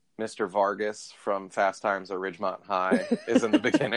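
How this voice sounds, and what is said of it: Usual voice. Nothing is said of it.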